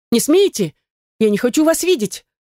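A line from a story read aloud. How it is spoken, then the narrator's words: Frightened scream. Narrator (Russian): Закричала испуганно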